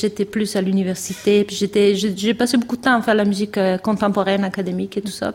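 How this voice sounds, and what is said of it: Slight Québécois French accent. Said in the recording (French): “ce petit accent québécois”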